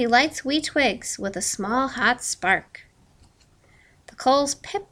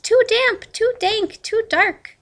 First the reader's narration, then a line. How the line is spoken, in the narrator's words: Mouse squeaks